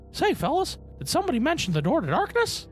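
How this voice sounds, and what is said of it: Mickey Mouse cartoon voice. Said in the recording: “Mickey impression”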